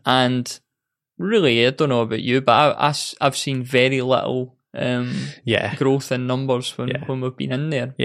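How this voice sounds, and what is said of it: British accent. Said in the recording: “That is like the coolest accent ... on the other side of the pond”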